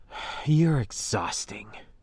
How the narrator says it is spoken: she sighed

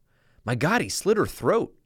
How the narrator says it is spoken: exclaimed Gates

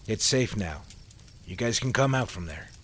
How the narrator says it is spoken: said in a calm tone

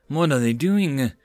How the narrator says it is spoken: Dijon, his voice muffled as he asked

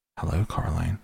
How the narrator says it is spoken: said

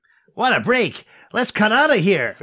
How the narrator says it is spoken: a voice inside saying

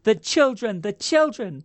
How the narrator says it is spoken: I screamed and yelled

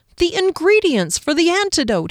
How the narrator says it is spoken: cried

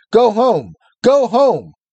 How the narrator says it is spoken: He shouted out idiotically

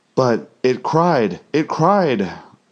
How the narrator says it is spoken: whimpered Juggins

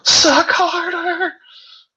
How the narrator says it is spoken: she screamed

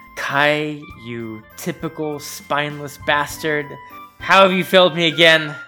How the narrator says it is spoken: under her breath, she mutters

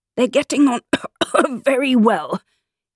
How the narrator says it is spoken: he said in a choking voice

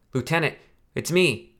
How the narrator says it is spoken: shouted

